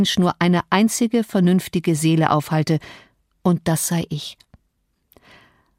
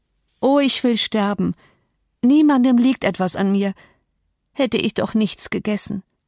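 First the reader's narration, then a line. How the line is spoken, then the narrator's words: Groaned. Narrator (German): stöhnte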